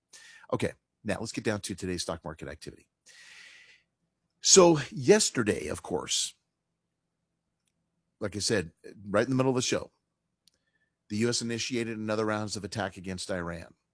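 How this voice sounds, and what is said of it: Hoarse voice from a cold. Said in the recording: “I am fighting a cold ... I have a very hoarse voice ... I'm losing my voice”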